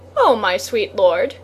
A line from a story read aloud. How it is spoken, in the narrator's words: said